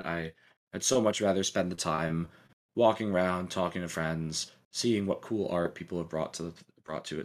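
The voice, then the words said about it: Strained, worn-out voice. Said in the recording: “as you can tell by my voice... by all of our voice, yeah, we're struggling”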